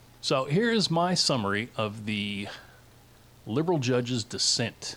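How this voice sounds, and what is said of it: Usual voice. Nothing is said of it.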